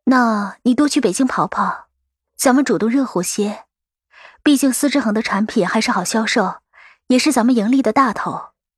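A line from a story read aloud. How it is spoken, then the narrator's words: Sighing. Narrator (Chinese): 我叹了口气道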